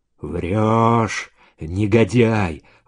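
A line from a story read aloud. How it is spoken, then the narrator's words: Whisper. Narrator (Russian): прошептал Саша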